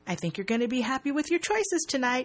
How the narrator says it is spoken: he says brightly

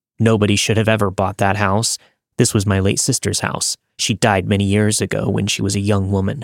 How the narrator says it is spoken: He grumbled

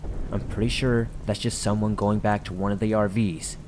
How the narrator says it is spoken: Seriously pissed off at that point, hissed

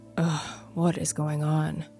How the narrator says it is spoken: I said under my breath

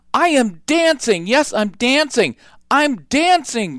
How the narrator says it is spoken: Gerald cried

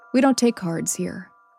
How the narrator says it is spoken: she said

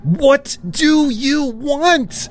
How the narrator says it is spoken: I screamed

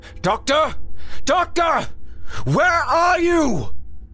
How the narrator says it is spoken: Through his damaged voice transmitters, Grimm shouted

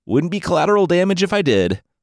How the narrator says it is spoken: Anansi said with a laugh

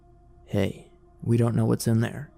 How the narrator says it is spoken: said grimly

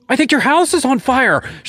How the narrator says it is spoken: she screamed

